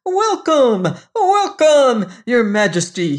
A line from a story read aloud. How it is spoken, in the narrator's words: he cried